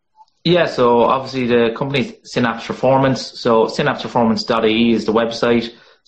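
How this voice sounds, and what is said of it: Monotone rural Irish accent. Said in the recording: “my monotone bogman accent”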